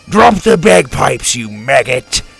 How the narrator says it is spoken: Drake roared

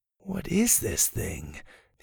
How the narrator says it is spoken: he mumbled to himself

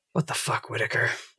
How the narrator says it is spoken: whispers to Allie

